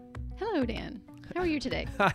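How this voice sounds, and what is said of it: Polished formal phone-answering voice. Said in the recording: “That's your official phone voice.”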